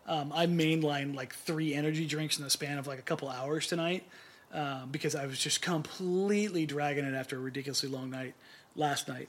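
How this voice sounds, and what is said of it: Talking very fast. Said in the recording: “I'm talking so fast”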